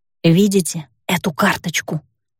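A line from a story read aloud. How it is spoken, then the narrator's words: Whisper, lips barely moving. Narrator (Russian): Стараясь как можно меньше шевелить губами, прошептала я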